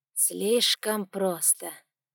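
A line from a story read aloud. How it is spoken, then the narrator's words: Doubtful drawl. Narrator (Russian): с сомнением протянул он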